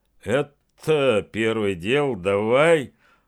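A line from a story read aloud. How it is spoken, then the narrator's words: Smirking. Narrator (Russian): Он охмыльнулся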